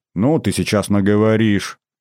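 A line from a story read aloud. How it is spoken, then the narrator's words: Grumbling. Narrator (Russian): проворчал я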